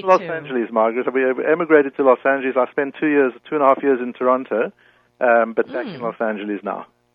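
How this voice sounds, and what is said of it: Speaker with a distinctive accent. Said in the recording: “I like the way he says that, Los Angeles. ... I love his accent. ... I could just listen to it all night long.”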